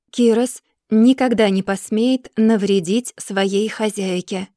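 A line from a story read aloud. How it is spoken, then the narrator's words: Even tone. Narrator (Russian): отвечает он ровным тоном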